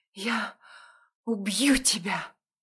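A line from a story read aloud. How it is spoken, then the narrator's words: Breathless clipped exhale. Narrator (Russian): Выдохнула отрывисто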